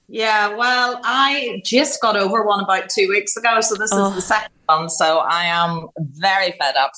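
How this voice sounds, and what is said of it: Voice with a head cold. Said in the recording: “I've got a cold”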